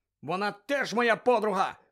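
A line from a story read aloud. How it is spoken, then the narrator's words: Shout. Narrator (Ukrainian): крикнув Гаррі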